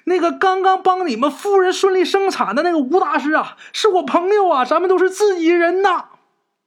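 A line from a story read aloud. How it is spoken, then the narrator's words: Shouting while running. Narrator (Chinese): 陈氏拼命往前跑，一边跑一边喊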